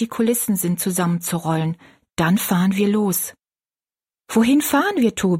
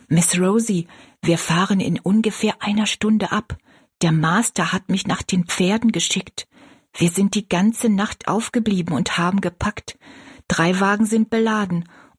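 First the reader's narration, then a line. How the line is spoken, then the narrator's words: Whispering. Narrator (German): Tobi, ein schwarzer Arbeiter ihres Vaters, flüsterte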